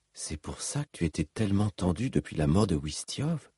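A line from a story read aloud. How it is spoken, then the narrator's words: Murmured. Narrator (French): murmura Cal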